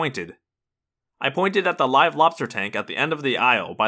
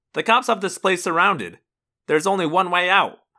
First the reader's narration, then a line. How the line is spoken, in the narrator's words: I snapped